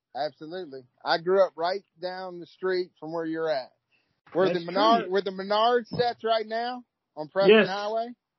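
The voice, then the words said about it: Slight Kentucky country twang. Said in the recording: “you got a touch of an accent there ... you got a little bit of twang to your voice ... you got a little twang in your voice ... You sound like you got a little country in you”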